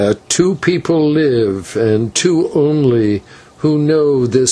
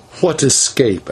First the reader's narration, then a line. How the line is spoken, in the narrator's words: asked Maya quickly, for when she learned that Tikal knew everything, all hope had faded from her heart as from ours